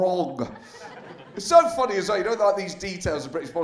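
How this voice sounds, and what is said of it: Usual voice. Nothing is said of it.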